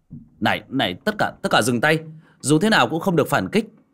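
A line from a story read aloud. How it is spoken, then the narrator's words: Shouting. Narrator (Vietnamese): đoạn hét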